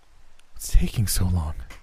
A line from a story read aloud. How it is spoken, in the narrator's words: whispered